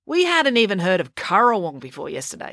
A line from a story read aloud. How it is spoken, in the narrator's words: scoffed April